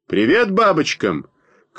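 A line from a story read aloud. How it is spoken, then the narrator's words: Shout. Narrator (Russian): крикнул он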